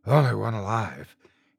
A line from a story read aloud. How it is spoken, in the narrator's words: he panted